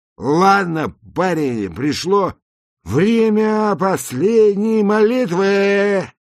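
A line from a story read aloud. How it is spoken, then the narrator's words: Very loud speech. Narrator (Russian): сказал он очень громко, как поступают все люди в наушниках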